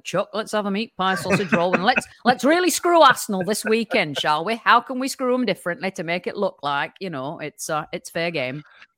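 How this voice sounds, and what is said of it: Put-on northern English accent. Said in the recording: “I'm surprised how good that northern accent is.”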